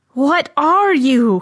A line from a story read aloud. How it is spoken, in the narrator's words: he howled